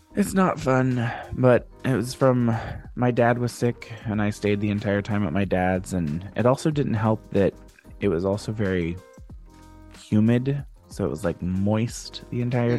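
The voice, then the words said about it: Stuffy, congested voice. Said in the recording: “I sound like garbage. ... I'm a little, a little stuffy. ... you definitely sound a little stuffy.”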